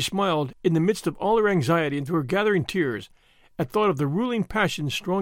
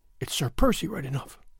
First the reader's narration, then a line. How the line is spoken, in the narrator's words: she murmured